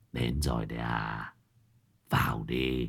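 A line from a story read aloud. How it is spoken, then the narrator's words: Hoarse voice. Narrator (Vietnamese): người nhà đã vang lên giọng nói khàn khàn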